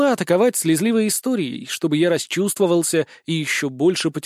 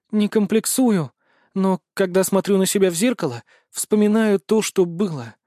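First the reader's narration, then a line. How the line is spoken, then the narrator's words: Sad sigh. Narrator (Russian): с грустью вздохнула Зои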